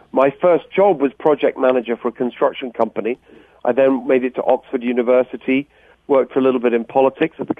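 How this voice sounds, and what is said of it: English accent. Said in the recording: “I was born in England, as people you can tell from my accent.”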